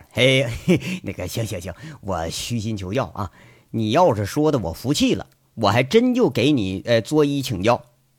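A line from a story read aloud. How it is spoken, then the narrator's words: Cheeky, joking. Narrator (Chinese): 杨伟嬉皮笑脸在那说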